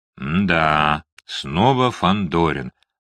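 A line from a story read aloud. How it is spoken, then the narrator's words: Reminiscent drawl. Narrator (Russian): протянул Кирилл Александрович, словно припоминая какую-то давнюю историю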